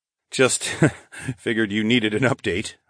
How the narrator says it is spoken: I chuckled

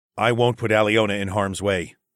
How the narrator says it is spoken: I said firmly

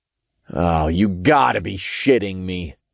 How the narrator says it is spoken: I groaned when I realized the play on words

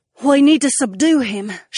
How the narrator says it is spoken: she gasped in response, and her brow creased as she concentrated

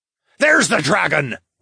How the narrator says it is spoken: one of the bandits yelled

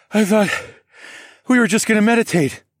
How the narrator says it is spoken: I panted

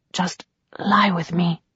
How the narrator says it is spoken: whispered

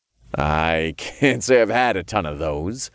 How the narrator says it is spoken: I chuckled

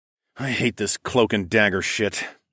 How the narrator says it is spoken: sighed

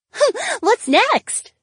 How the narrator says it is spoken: Valerie giggled

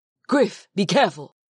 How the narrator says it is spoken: Huna called out to me

